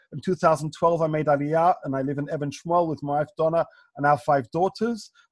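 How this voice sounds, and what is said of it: London English accent. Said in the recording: “As you may be able to tell from my accent, I'm originally from London”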